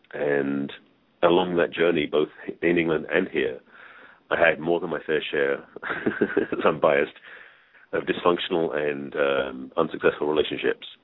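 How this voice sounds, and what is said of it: English accent. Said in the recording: “my accent is English”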